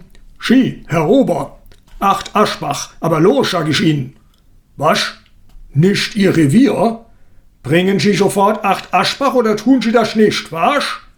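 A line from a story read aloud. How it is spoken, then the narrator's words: Booming thunderous shout. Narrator (German): Er ließ seine Stimme wie eine Artilleriesalve über das Gartenlokal hinweg dröhnen und donnerte irgendeinem erschrockenen Kellner an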